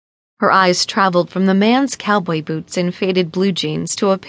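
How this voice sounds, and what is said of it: Usual voice. Nothing is said of it.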